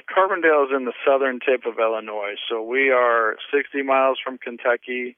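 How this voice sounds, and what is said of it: Southern American accent. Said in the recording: “I do hear the southern in your accent”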